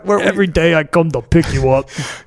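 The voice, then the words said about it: Poor put-on accent. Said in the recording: “My accents are so bad ... You got one thing right with that accent ... that does sound so like construction”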